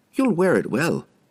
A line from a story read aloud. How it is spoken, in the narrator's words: she said cheerfully